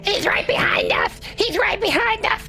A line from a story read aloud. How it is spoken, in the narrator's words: running frantically, screaming